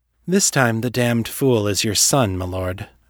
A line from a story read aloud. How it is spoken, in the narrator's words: Misty said evenly